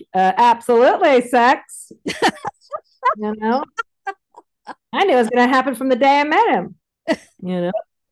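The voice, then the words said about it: Poor impression of Sybil. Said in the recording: “That is not a good Sybil impression.”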